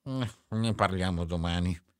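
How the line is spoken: Murmured. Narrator (Italian): mormorò

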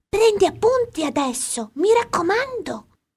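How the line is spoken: Whispered. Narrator (Italian): mi sussurrò

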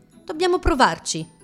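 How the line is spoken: Plain. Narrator (Italian): rispose Camilla

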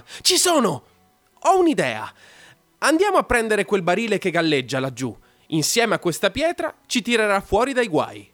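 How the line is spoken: Sudden excited exclamation. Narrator (Italian): salta su ed esclama

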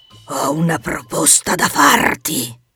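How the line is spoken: Roared. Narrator (Italian): ruggì

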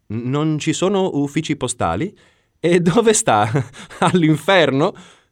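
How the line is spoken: Exclaiming. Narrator (Italian): esclamai

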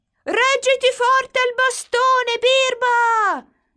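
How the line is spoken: Shouting. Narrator (Italian): gli gridano

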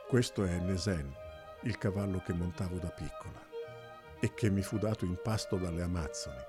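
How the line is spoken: Low sad female voice. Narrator (Italian): spiegò lei con voce bassa e triste

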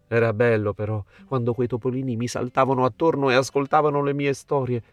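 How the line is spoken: Sighing fir tree. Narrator (Italian): sospirò l'abete

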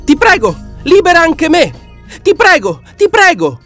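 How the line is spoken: Monkey screaming. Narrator (Italian): cominciò allora a gridare la scimmia

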